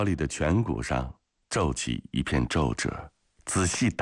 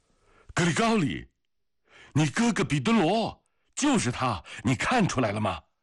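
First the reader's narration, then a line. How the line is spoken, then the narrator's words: Loud shout. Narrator (Chinese): 紧接着他又大声地喊道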